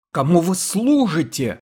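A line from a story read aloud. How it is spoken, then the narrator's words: Impatient yell. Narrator (Russian): заорал Кирганбенбек, потеряв всякое терпение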